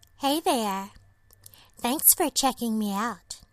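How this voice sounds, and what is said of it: Texan and New York hybrid accent. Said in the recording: “my accent? It's a hybrid of a girl who grew up in Texas and moved to New York City”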